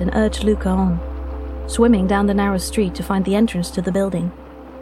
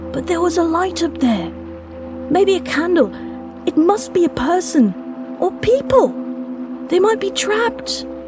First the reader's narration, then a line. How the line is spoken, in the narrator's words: Luca pleaded as much with his tone as his words